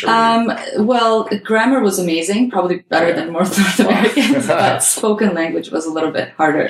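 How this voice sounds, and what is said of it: Non-native English accent. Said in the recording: “I'm sure I still have an accent, so I don't think they'll ever go away”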